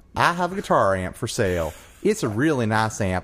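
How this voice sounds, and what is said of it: Reads aloud in a twang accent. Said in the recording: “you have to read it with the twang.”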